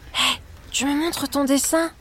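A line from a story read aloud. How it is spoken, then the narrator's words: Whisper. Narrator (French): chuchote Paul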